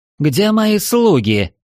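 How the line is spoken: Indignant shout. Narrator (Russian): возмущенно прокричала демонесса

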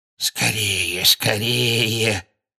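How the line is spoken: Husky mutter behind door. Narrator (Russian): сипло бормотал кто-то прямо за дверью кабинета

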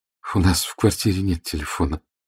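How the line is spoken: Embarrassed mumble. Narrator (Russian): пробормотала Тина, чувствуя, что заливается краской

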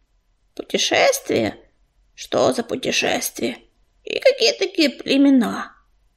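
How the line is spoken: Sighing. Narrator (Russian): Ежевика вздохнул

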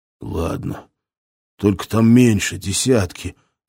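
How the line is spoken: Breathed out. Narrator (Russian): выдохнул он

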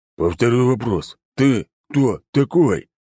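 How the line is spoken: Growled, stressing each word. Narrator (Russian): прорычал он, выделяя слова

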